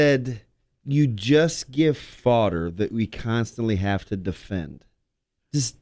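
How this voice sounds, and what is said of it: Usual voice. Nothing is said of it.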